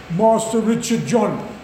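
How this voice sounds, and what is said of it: Very plummy posh English accent. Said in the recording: “in a very plummy accent, because I'd been to an English public school”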